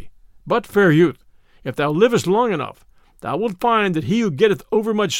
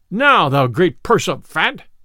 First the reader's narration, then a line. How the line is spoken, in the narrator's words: cried Little John